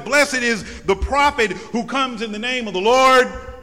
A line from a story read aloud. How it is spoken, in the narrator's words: had the crowd shouted